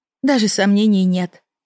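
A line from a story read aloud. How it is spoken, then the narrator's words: Sighed. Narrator (Russian): вздохнула я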